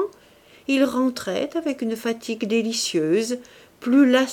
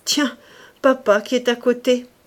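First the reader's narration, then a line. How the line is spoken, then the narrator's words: Theatrical exclamation. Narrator (French): s'écriait-il avec la grimace qu'il empruntait aux acteurs en vogue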